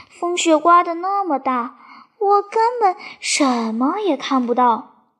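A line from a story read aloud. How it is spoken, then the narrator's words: Hesitant sigh. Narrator (Chinese): 萨沙想了一会儿，叹了口气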